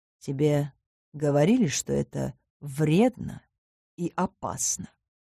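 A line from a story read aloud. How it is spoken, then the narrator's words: Shadow asking quietly. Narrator (Russian): Тихо поинтересовался тень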